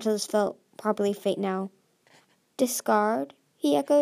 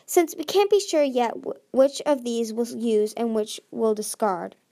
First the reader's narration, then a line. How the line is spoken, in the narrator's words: he frowned